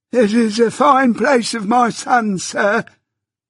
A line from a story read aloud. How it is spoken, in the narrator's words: cried the old man